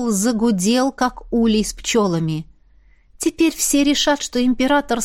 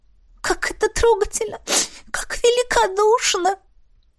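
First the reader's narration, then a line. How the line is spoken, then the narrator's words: Sobbing young girl. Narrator (Russian): всхлипывала девчонка-водница с третьего курса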